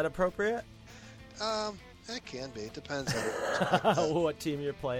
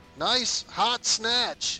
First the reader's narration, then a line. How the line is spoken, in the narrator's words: the appropriate thing to yell is